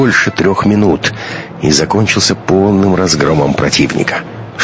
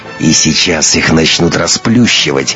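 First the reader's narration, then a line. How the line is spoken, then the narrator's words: Through clenched teeth. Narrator (Russian): процедил Матвей, которому всегда передавалось настроение напарницы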